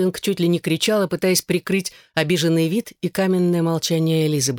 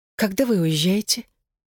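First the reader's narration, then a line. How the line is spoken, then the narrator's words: Whisper. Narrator (Russian): прошептала Элизабет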